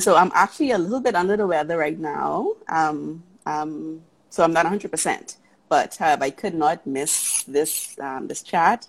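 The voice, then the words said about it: Speaks with a pretty accent. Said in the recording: “I love your accent. It is so pretty.”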